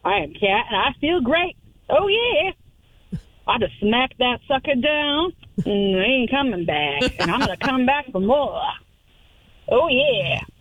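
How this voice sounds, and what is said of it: Put-on southern accent. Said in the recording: “I got a southern accent.”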